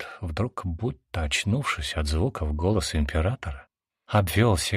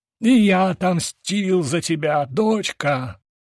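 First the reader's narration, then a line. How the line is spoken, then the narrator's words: Shouting. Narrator (Russian): закричал он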